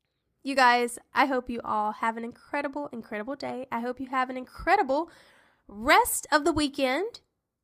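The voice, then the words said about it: Tired, groggy voice. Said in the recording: “I'm a little tired because my voice, I can tell my voice has gotten a little bit more kind of groggy-ish”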